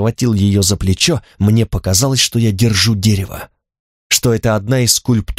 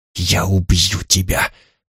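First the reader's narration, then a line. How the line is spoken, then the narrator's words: Helpless whisper. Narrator (Russian): шептал я бессильно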